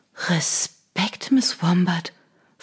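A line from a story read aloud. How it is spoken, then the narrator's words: Whisper. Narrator (German): flüsterte sie der Tür zu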